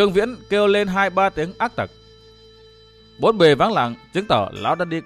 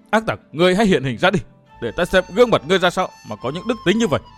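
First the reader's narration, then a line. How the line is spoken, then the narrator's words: Anguished roar. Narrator (Vietnamese): Dương Viễn gầm lên đau khổ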